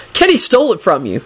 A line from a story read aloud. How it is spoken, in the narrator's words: Henry informed her with a yawn